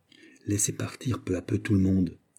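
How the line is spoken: Said quietly. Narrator (French): dit Mazarin tout bas à Louis XIV

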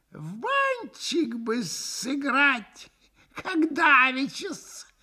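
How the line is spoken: Giggling. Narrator (Russian): хихикнул друг Максимов

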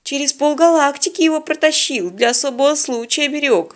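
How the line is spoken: Sighing. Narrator (Russian): вздохнул он

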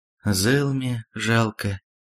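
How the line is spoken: Sighing. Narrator (Russian): вздохнула волшебница

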